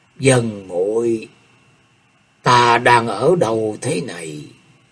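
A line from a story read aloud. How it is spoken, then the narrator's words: Soft groan. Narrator (Vietnamese): Thế Hùng rên lên khe khẽ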